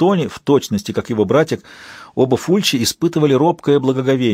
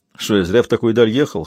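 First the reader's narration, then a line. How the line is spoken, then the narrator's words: Snorting scoff. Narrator (Russian): хмыкнул детектив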